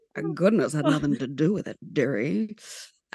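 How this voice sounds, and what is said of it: Mae West impression. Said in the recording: “going to do my Mae West impersonation ... I've been practicing my Mae West impersonation”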